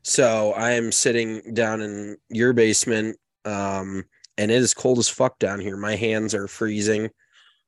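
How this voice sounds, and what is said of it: Raspy, stuffy congested voice. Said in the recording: “you can probably tell by my voice, it's maybe a little raspy ... and a little stuffy”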